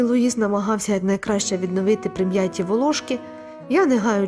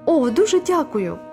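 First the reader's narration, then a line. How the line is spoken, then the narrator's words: Tearful exclamation. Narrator (Ukrainian): витираючи сльози, вигукнула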